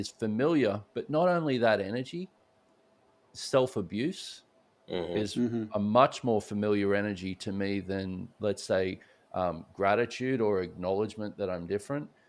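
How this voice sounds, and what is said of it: Australian accent. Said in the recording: “It's clear from your accent you're not from Houston ... I grew up in Australia”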